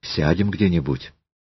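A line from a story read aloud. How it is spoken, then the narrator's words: Quiet, embarrassed. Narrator (Russian): Елизавета слегка покраснела, склонила голову и тихо сказала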